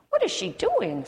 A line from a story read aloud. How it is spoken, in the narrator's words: squealed the aardvark